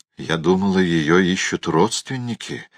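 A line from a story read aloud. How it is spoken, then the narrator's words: Quiet. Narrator (Russian): негромко сказала она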